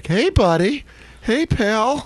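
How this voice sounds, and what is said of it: Phony cheery dad voice. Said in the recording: “It's that dad voice ... that phony, hey, buddy”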